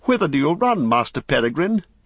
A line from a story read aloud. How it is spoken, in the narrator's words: he cried